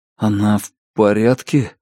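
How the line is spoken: Whisper. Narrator (Russian): прошептал Лун

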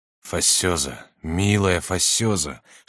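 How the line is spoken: Whispering, falling to knees. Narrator (Russian): шептал он, падая на колени

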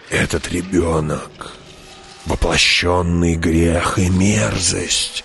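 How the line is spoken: Old woman hissing. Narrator (Russian): прошипела старуха

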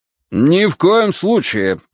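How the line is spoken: Booming behind door. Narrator (Russian): прогремел из-за двери голос мистера Данворти

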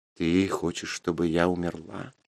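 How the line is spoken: Sad question. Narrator (Russian): печально спросила Мара

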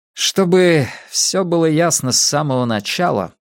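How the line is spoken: Grim tone. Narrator (Russian): мрачно произнес он

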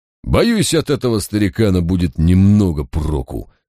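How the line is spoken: Grumble. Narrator (Russian): пробурчал Маливер

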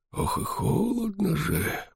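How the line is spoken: Muttering. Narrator (Russian): бормотал он

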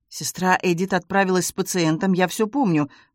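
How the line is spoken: Muttered. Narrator (Russian): пробормотал он

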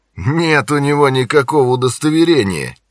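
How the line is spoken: Snide declaration. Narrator (Russian): ехидно заявил Джонни

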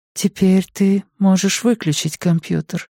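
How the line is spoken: Sleepy whisper. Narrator (Russian): сонно шепчет Вика

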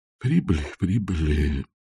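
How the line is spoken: Muttering. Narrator (Russian): пробормотал музыкальный директор

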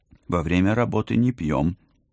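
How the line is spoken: Stern. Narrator (Russian): строго напомнила я

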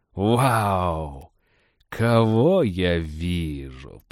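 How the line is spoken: Delighted drawl. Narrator (Russian): протянул он, истово благодаря вселенскую справедливость

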